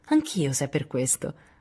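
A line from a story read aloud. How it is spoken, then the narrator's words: Laughing. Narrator (Italian): rise Lori al pensiero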